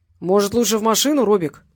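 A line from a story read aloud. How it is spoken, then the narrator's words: Deep bass voice. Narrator (Russian): пробасили у Валерия за спиной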